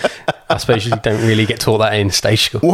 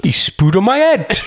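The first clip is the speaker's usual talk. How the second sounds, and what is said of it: Put-on Welsh accent. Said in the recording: “give me your best Welsh accent”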